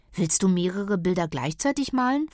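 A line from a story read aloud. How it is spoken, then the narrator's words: Plain. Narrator (German): fragt Kira ihn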